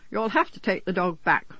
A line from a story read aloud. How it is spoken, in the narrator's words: said irritably